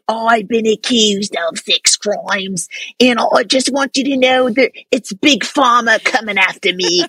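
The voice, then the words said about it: Put-on East London accent. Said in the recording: “That accent is so brutal. ... It's so spot on ... were you raised in London, the East Side? Because it's amazing.”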